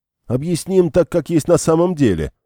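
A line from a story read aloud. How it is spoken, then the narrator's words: Heated shout. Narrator (Russian): сгоряча выкрикнул Герард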